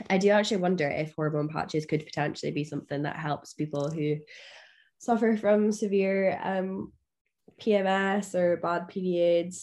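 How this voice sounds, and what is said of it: Hoarse, strained voice. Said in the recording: “<clears throat> sorry, I'm losing my voice.”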